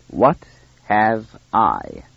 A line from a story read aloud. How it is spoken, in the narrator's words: repeated the first speaker slowly